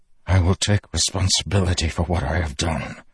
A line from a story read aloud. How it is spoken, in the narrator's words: Dalinar whispered